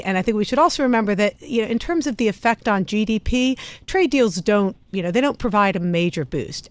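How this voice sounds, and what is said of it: British-influenced accent. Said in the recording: “Can you hear my accent, Tom? Yeah. I spent a lot of years there.”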